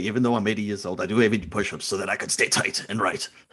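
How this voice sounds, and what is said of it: South African accent impression. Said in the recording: “my South African is decent”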